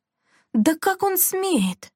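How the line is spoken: Female exclamation. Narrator (Russian): воскликнула она

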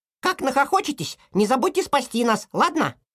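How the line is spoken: Displeased squeaky child. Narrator (Russian): пропищал недовольно малыш

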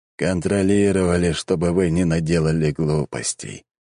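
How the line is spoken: Sighing. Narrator (Russian): вздохнул Леандур

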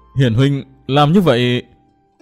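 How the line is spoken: Deeply moved, trembling voice. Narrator (Vietnamese): Xúc động tận đáy lòng, Từ Mã Minh run run nói

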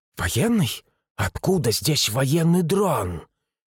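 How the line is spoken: Alarmed whispering crowd. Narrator (Russian): По залу пронесся встревоженный шепот

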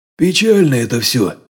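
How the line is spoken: Sigh without sadness. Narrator (Russian): вздохнул вошедший без намека на грусть

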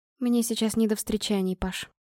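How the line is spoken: Quiet reply. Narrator (Russian): ответила я тихо

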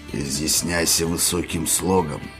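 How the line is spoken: Quiet. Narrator (Russian): тихо проговорил Корт

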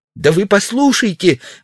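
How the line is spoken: Tearful boy's exclamation. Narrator (Russian): воскликнул мальчик, и глаза его увлажнились

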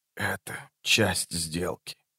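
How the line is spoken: Quiet. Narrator (Russian): тихо проговорил он

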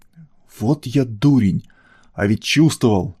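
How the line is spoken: Growled. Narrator (Russian): прорычал олигарх

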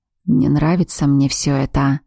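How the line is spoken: Hoarse whisper close by. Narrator (Russian): раздался у самого ушка хриплый шепот мужа

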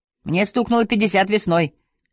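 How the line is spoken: Shouted. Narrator (Russian): крикнул Вестин

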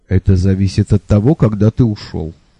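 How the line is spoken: Calm. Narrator (Russian): спокойно сказал Лонли Локли

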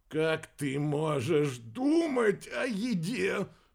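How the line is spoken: Moaning. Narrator (Russian): простонал Рики

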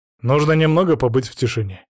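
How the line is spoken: Snapping irritably. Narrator (Russian): огрызнулся

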